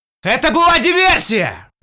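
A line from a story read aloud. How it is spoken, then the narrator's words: Yelling. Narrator (Russian): Завопил я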